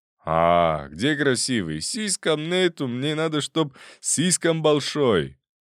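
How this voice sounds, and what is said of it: Strong non-native accent in Russian. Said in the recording (Russian): “голос с неуловимым акцентом ... Акцент стал сильным.”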